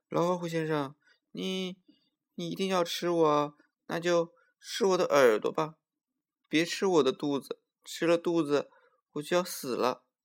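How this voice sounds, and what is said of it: Pitiful, pleading small-animal voice. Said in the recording (Chinese): “小松鼠又用可怜的声音说”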